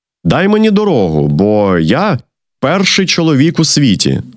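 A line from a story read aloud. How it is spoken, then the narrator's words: Plain. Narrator (Ukrainian): сказав розум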